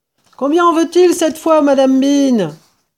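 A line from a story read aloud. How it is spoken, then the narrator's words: Shouted by a woman. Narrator (French): hurla la femme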